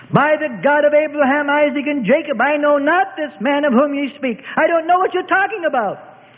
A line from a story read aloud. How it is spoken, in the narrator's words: he cried out desperately